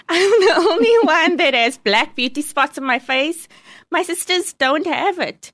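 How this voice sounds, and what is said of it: Squeaky Coloured accent. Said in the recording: “I'm the only one that has a colored squeaky accent.”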